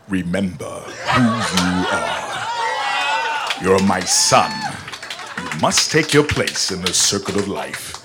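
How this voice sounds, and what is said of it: Mufasa from The Lion King impression. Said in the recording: “I want you to do a little Mufasa for us ... I love a good impression ... the impression”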